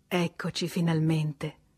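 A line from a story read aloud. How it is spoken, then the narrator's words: Emotional sigh. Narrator (Italian): sospirò emozionata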